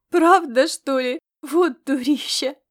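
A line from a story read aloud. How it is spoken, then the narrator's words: Snort, then burst of laughter. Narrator (Russian): Ирида фыркнула, а затем не выдержала и расхохоталась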